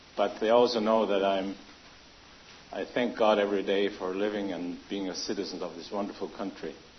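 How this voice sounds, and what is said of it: German accent. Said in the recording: “They call me the German because of my accent”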